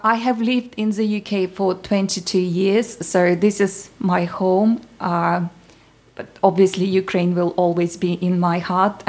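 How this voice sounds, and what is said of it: Ukrainian accent speaking English. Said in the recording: “we can hear from the accent that you're certainly not from the UK. You're from the Ukraine, aren't you?”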